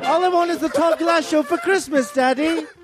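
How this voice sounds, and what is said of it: Put-on Liverpool accent. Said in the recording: “that actually is a perfect Liverpool accent. I've been there, and that's spot on... very accurate”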